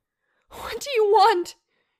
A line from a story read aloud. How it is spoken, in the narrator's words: shouted at the house